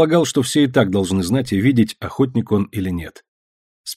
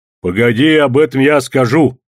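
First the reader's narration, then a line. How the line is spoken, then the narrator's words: Stern interruption. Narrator (Russian): строго перебил жену Пахом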